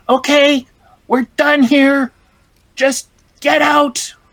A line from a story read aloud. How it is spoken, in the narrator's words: someone shouts out